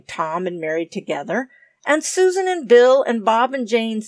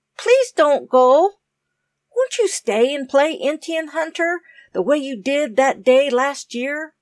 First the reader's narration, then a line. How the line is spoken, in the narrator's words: said Tom eagerly